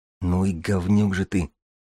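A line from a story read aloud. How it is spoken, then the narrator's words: Breathed out, dismayed. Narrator (Russian): выдохнул ксенопсихолог, вдруг осознавая, что натворил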